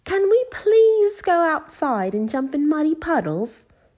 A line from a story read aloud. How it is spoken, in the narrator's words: asked Peppa excitedly